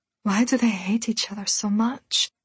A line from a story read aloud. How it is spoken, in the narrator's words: She murmured